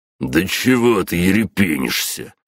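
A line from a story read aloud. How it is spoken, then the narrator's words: Growled. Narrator (Russian): прорычал блондин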